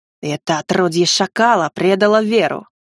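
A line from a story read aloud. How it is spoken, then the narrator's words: Snakelike hiss. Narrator (Russian): прошипел словно змея-распорядитель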